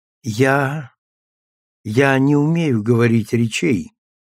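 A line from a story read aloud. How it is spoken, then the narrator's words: Quiet start. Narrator (Russian): начала тихо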